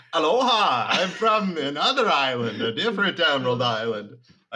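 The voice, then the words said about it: Made-up mixed foreign accent. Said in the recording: “I got a weird accent. I don't even know what it is. I made it up just now. It's a little bit of Simon, a little bit of Hawaiian ... Sounds uh, heavily Doukhobor ... a little bit of Dracula ... Dracula tones”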